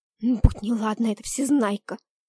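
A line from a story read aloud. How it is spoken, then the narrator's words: Hissed. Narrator (Russian): зашипела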